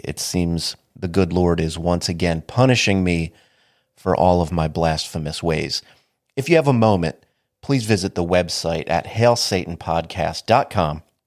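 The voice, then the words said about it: Sniffly, congested voice. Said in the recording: “my voice sounds weird or if I'm a little sniffly, my allergies are killing me”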